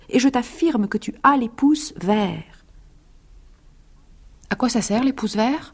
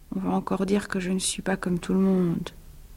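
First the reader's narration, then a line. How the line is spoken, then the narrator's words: Murmured, man. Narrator (French): murmura-t-il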